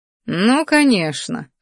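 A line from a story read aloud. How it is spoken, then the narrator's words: Smirking snort. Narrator (Russian): хмыкнул магистр, усмехаясь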